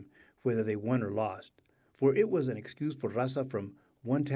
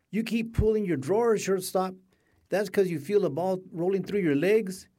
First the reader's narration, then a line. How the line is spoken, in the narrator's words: she shouted